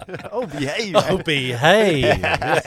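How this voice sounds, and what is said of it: Austin Powers impression accent. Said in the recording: “Austin Powers... The accent.”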